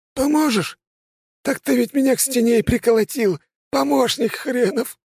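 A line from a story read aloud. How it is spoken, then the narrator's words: Angel sobbing. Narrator (Russian): всхлипнул ангел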